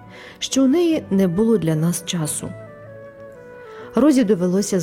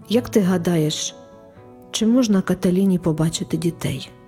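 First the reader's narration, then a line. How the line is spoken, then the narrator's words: Dejected question. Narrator (Ukrainian): запитав батько пригніченим голосом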